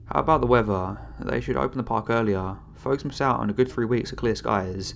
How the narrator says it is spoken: the ranger said

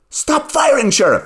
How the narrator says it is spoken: She cried

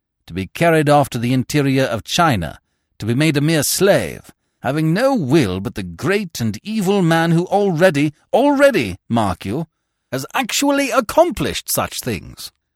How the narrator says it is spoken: he said harshly

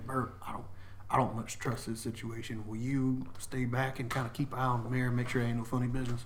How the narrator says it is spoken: quietly

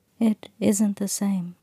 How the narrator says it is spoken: Ash said gently

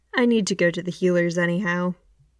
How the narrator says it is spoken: Ben sighs

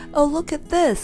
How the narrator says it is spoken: cried Joe in delight

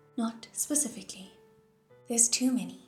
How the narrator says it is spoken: Pei Ming said

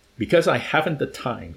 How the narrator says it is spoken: he snapped at her impatiently

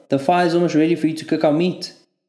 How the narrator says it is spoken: Benno shouted from a camping chair

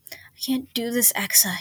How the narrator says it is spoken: gasped

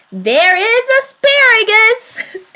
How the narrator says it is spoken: God laughed

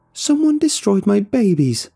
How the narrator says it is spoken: she was wailing

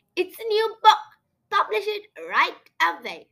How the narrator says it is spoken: Bitewing squeaked

